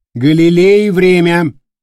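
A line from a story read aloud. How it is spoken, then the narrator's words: Loud. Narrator (Russian): громко произнес Дорофеев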